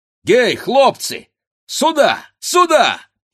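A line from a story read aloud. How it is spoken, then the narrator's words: Shouting. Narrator (Russian): кричал он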